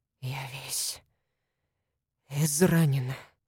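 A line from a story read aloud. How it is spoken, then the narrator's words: Whisper. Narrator (Russian): прошептал тот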